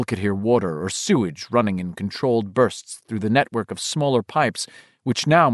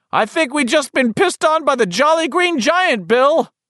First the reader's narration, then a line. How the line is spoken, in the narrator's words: Richie bellowed with sorry good humor